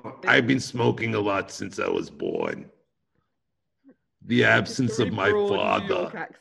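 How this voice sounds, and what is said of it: New York housewife character voice. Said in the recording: “With a New York accent. ... Housewife. That's what she sounds like.”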